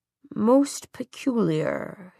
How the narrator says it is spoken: he murmured

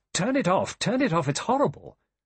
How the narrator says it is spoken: Vera cried

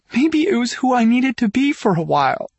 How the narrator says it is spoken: cries

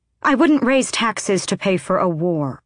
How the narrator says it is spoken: she said sharply

